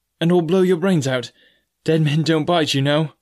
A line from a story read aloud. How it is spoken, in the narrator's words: I added with a chuckle